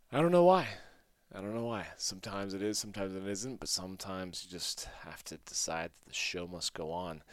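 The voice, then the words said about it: Groggy voice. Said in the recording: “My voice is a little bit groggy again today.”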